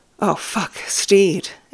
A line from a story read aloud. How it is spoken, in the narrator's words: Ed gasps